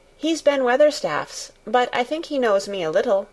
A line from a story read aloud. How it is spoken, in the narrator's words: answered Mary